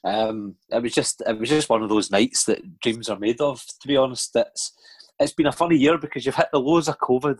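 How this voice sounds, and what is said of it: Sore, strained voice. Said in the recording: “my voice is a bit sore”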